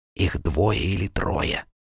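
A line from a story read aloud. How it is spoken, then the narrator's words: Nervous whisper. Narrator (Russian): Нервным шепотом переводил Вильям травнику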